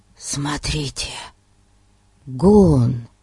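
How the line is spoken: Whispered. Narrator (Russian): прошептал он

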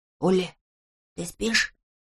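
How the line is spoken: Whispered question. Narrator (Russian): спросил он шепотом

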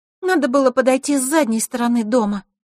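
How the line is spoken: Sad. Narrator (Russian): грустно произнесла Диана

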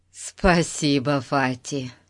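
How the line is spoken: Relieved sigh. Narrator (Russian): Пип облегченно вздохнул

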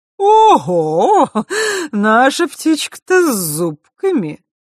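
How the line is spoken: Sudden laugh. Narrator (Russian): вдруг рассмеялась Хранимара

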